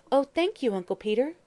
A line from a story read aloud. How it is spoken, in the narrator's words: exclaimed the chair girl gratefully